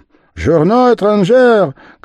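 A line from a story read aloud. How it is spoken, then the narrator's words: Shouting running newsboy. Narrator (Russian): крикнул бежавший навстречу газетчик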